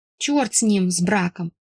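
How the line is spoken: Sniffly grumble. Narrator (Russian): Высморкавшись, проворчала я

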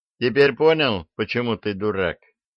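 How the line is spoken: Snide question. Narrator (Russian): ехидно спросил Арчибальд

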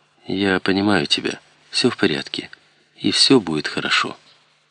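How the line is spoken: Soft reassurance. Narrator (Russian): Ребекка мягко сказала

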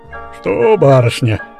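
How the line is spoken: Grumbling. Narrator (Russian): ворчал Рябой Яков

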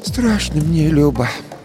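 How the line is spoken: Sighing. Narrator (Russian): вздохнув, сказала баба Маша

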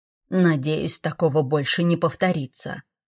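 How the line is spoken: Grumbling. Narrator (Russian): проворчал Лер

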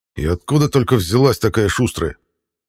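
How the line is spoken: Grumbling. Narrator (Russian): проворчал Ивар

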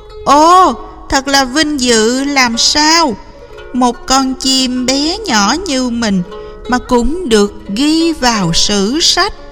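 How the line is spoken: Joyful bird's cry. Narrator (Vietnamese): Họa mi sung sướng kêu lên

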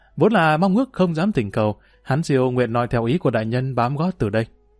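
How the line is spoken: Smiling reply. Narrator (Vietnamese): Ngũ Hán Siêu mỉm cười, đáp

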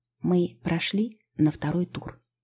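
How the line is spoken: Whisper. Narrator (Russian): шепнула мне Лео

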